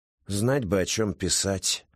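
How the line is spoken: Sighing. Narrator (Russian): вздохнул Федор

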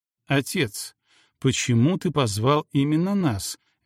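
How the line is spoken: Soft question. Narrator (Russian): мягко спросил Гектор

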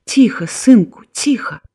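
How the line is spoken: Soothing whisper. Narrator (Belarusian): прашаптала яна

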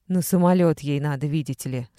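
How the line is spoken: Sharp rusty metallic voice. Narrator (Russian): сказала мама все тем же острым металлическим голосом, как будто тронутым ржавчиной

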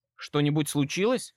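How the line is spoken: Plain. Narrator (Russian): спросил

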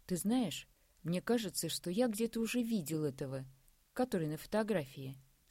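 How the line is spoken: Plain. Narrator (Russian): сказал Андрей

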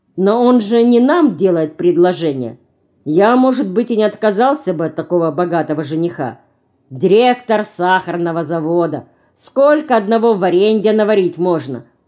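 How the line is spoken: Joking. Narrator (Russian): пошутил Олег

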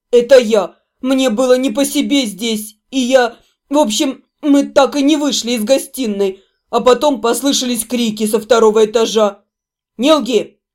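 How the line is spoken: Rude interruption. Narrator (Russian): Грубо оборвал его Седрик

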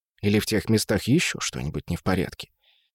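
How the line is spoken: Quiet addition. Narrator (Russian): тихо добавил Кэскард

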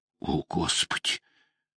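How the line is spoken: Breathed exclamation. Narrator (Russian): выдохнула Вэл

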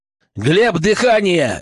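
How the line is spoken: Bark. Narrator (Russian): рявкнул

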